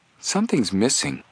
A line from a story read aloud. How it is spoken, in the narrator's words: Joe said in a puzzled voice